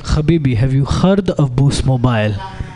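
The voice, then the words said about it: Put-on Arabic accent. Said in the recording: “that impression ... I think I'm naturally good at the Arabic accent”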